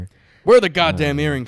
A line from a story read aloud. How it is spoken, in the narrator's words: She hollered